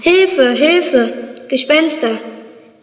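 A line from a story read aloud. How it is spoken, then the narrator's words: Stammering. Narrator (German): stotterte weiter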